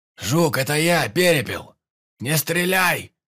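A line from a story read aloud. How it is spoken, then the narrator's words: Shouting. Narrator (Russian): прокричал наш ведущий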